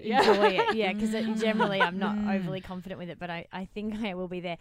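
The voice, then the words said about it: Australian accent. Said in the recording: “I love your Australian accent ... It's very sexy now overseas.”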